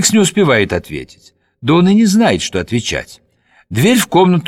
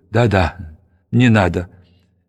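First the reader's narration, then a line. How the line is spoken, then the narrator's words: Broken, trembling voice. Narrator (Russian): Феликс, он сломлен, дрожащим голосом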